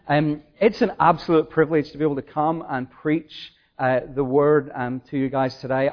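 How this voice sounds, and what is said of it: Noticeable non-local accent. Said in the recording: “I do have a funny accent”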